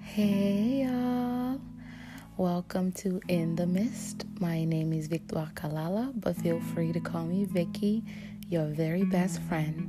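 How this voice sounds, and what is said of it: Raspy, tired-sounding voice. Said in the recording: “my voice sounds a little crazy. It's been a long day. It's gonna feel raspy or sound raspy”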